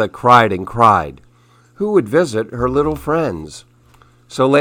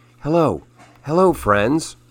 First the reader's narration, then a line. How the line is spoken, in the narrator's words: she whispered softly